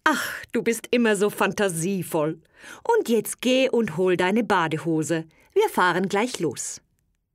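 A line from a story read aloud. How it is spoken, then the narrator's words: Laughing speech. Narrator (German): Sie lachte daher und sagte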